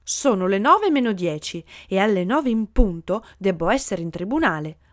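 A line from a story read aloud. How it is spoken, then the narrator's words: Lawyer shouting. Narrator (Italian): gridò un avvocato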